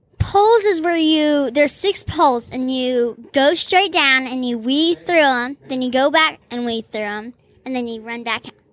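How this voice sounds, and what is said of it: Arkansas Southern American accent. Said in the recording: “I thought that was an Arkansas accent.”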